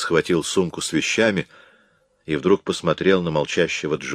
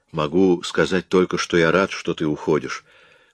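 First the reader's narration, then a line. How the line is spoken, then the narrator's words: Calm. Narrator (Russian): спокойно ответил Джой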